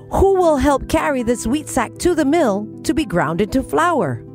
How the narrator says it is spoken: She then called out with hope

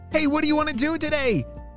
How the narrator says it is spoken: Miles shouted at a sleepy Isaac

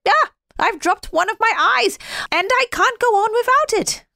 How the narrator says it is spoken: the snowman cried out

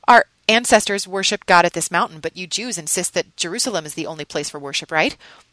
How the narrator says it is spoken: When she found her tongue, she stammered

